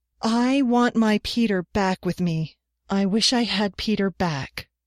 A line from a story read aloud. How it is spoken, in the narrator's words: declaimed in a ringing voice